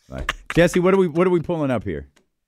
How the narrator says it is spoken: Big Perk shouting out

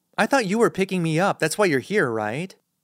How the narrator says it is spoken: Ellis chuckles

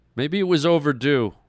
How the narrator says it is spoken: Brett blurted out

